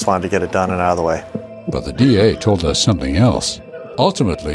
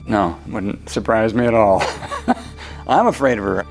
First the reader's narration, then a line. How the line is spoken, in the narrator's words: her ex-husband said with a nervous laugh